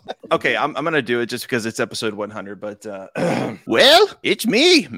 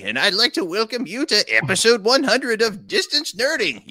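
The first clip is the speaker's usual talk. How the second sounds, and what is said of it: Cartoon old man character voice. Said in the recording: “does impersonations. ... I do Master Roshi ... his Master Roshi is fantastic. ... Your Master Roshi is so good.”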